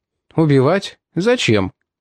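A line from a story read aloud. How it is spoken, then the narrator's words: Calm. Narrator (Russian): спокойно сказал он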